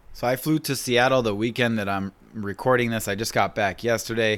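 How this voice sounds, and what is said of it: Raspy, stuffed-up voice. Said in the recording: “My voice is a little raspy. I am a little stuffed up as well... maybe just a cold”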